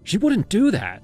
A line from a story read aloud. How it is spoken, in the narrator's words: I snapped